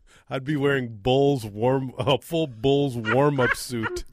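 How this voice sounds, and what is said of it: Usual voice. Nothing is said of it.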